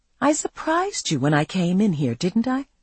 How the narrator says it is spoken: I said softly

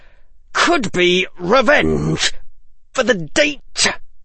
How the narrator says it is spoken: he managed to say, through gritted teeth

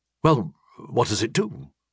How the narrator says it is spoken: He asked anxiously

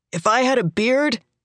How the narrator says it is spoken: he shouts

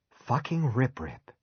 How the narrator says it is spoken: he breathed

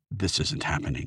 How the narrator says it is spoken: Faisal muttering to himself

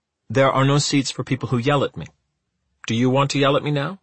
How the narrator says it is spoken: she said

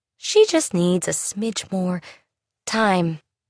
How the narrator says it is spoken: Kennedy sighed

